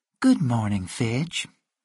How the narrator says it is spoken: said sweetly

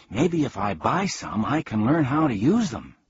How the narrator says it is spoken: said eagerly

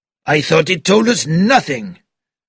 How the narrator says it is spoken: cried Bouc

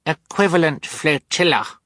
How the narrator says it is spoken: Sunny said sternly to the villain

